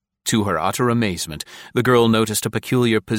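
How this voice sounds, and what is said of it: Usual voice. Nothing is said of it.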